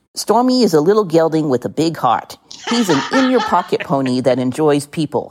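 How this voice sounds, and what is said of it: Put-on New Jersey accent. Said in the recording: “I'm going to read it in my version of a Jersey accent.”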